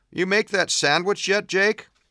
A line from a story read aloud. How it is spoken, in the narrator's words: Jake laughed